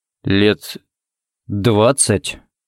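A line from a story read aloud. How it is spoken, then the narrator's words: Uncertain drawl. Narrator (Russian): неуверенно протянул Харри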